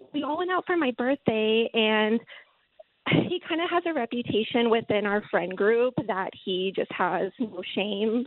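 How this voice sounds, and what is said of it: Shaky, nervous voice. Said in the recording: “my voice is kind of shaking. I'm a little no, nervous.”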